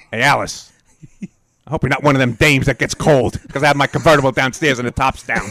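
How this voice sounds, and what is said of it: Tough-guy impression of another person's voice. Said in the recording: “a tough cop or a tough crook ... what would it be like if Ken Lynch played that part? ... does a great impression.”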